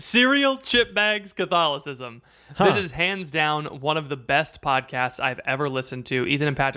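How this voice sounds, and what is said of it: Usual voice. Nothing is said of it.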